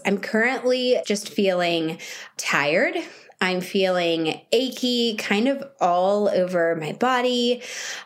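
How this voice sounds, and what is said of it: Scratchy, sore voice. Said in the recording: “You can hear in my voice, I just have a scratchy voice. It's sore and I'm having to clear my throat a lot.”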